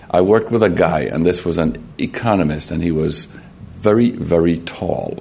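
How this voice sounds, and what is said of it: Slight Jamaican accent. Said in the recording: “if you think I have a slight accent, it's because I am from Jamaica.”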